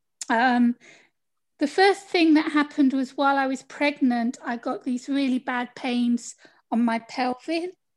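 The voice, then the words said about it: British accent. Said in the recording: “I'm from the UK, as you can tell from my accent”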